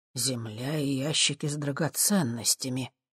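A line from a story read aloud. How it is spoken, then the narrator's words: Muttered. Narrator (Russian): пробормотал я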